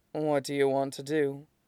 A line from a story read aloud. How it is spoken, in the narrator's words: Suizhou murmurs